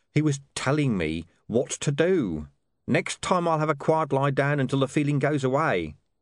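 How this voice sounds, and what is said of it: Horrified tone of voice. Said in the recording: “he added in a horrified voice”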